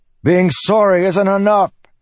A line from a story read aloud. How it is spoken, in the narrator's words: he yelled